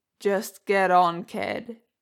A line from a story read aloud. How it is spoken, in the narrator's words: Jason growled